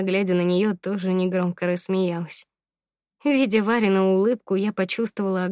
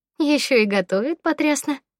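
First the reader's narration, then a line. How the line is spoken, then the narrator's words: Laughing. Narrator (Russian): рассмеялась Варя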